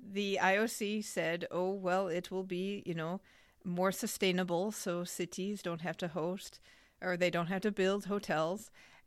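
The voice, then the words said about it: Put-on French accent. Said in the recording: “why are you suddenly saying this with a French accent? ... It is French, isn't it?”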